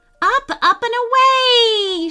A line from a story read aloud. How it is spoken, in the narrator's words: she cried, flying backwards and forwards on the swing